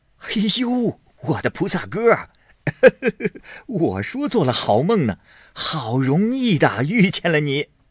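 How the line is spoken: Laughing, in unison. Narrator (Chinese): 沾光、单聘人二人 都笑着 都道

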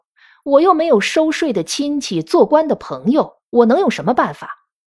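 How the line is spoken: Cynical sneer. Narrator (Chinese): 王狗儿此时又成了愤世嫉俗的模样，冷笑着说

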